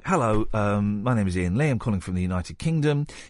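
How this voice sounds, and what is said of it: Put-on very posh voice. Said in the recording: “put on a very posh voice”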